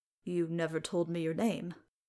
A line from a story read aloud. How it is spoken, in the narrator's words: Bale mumbled